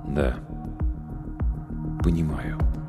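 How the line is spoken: Quiet reply. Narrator (Russian): также в тон негромко ответил

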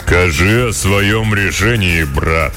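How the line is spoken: Booming, stout wizard. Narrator (Russian): прогудел тучный и низкорослый кудесник

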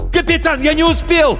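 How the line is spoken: Yelled reply. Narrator (Russian): заорал в ответ Каламбер

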